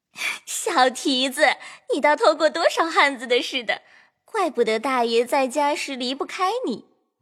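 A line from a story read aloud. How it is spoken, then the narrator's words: Flushed laughing scolding. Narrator (Chinese): 金贵两拳早已红晕了，笑骂道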